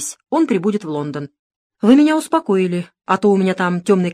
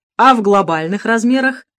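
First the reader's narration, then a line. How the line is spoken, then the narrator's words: Englishman laughing. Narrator (Russian): Засмеялся англичанин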